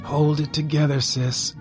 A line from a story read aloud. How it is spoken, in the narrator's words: I murmured